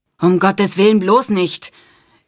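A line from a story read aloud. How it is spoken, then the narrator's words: Horrified cry. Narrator (German): rief Nora entsetzt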